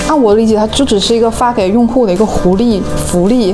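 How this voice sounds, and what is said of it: Southern Chinese accent in Mandarin. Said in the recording (Chinese): “暴露 ... 南方人口音了”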